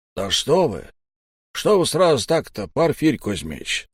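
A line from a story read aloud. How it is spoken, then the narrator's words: Fawning, ingratiating voice. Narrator (Russian): Совсем другим заискивающим голосом отозвался Сиплый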